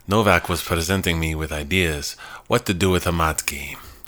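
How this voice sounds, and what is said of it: Made-up foreign accent. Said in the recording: “I don't really have a good accent for this, so I'm going to make one up.”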